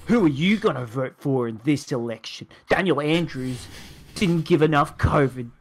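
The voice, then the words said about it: Dramatic political-ad voice. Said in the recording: “Dramatic voice.”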